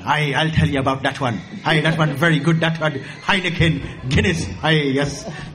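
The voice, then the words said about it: Put-on Irish accent, maybe Scottish-sounding. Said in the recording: “Maybe that's Scottish, I don't know. ... my best impression of somebody Irish”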